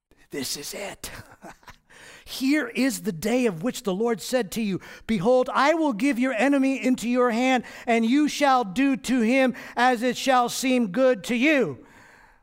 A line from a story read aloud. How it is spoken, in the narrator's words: whispering to David, saying